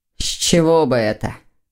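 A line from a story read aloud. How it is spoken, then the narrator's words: Wry snort. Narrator (Russian): Хмыкнул Лефевр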